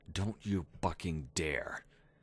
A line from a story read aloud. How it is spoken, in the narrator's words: she snarled savagely, still whispering